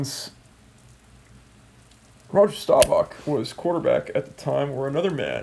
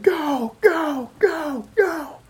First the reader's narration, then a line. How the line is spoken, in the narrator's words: he'd start yelling